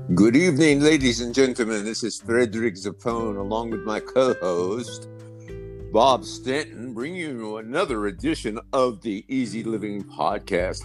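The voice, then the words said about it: Speaks with a put-on accent. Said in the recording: “A nice accent.”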